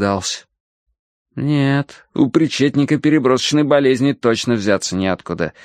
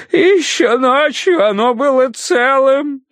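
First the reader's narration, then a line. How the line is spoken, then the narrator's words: Muffled sobbing. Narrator (Russian): всхлипывал он в грязный от сажи платок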